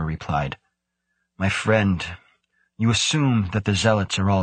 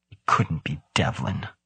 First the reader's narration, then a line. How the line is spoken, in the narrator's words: Grant muttered, more to himself than Muzarawa